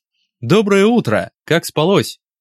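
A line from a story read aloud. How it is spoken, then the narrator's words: Cheerful. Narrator (Russian): медсестра весело произносит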